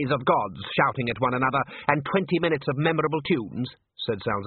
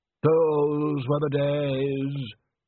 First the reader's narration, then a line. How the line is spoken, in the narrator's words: said Undershaft sadly